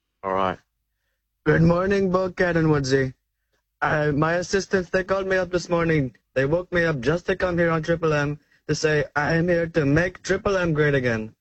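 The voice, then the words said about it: Imitates another person's voice, Indian accent. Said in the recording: “your impersonation ... Is that a Poo and a Husser Pina Petalon from Simpsons? ... Is that an Indian Trump? ... It's an Indian Trump. ... Oh, that's fantastic. ... That is so good”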